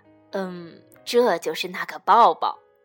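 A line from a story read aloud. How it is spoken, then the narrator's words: Shy quiet voice. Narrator (Chinese): 倪先生红着脸小声地说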